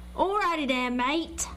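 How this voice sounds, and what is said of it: Mixed put-on accents. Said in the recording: “That was like, like, five different accents ... we should be banned from doing accents on the show”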